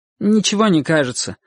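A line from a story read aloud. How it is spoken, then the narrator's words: Slightly irritated. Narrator (Russian): ответил Чик несколько раздраженно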